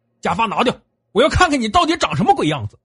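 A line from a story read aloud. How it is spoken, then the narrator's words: Loud. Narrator (Chinese): 小李大声说道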